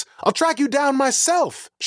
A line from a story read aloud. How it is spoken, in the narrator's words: shouted Cyrus